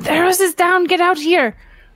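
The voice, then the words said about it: Yelling. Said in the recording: “I'm yelling at Orin. I'm yelling”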